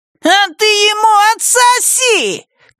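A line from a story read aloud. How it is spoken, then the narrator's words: Boy shouting. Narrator (Russian): крикнул мальчишка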